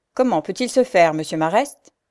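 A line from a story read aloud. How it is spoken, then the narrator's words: Curt tone. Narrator (French): dit d'un ton bref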